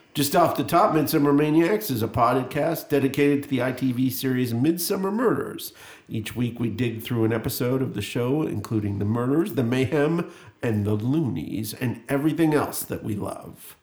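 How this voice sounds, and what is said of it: Radio DJ voice. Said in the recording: “You sound like such a DJ when you read that... I got the DJ voice out there.”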